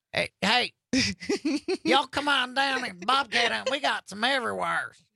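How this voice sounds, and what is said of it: Put-on Southern US accent. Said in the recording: “I can do a southern accent, though.”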